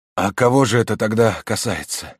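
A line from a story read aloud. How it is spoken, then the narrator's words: Fading, weak question. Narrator (Russian): спросил адвокат угасающим голосом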